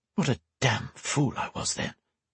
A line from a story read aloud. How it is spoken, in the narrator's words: she muttered